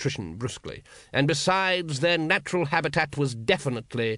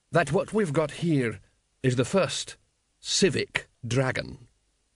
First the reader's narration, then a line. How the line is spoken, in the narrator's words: said the assassin slowly